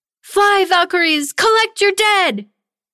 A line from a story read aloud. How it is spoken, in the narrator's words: Tanya cried out